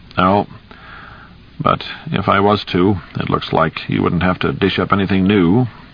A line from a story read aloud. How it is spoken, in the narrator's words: he said dryly